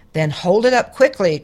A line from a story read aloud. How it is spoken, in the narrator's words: cried the dragon